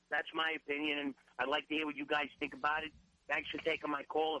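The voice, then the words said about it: Staten Island accent. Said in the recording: “the way ... has a Staten Island accent”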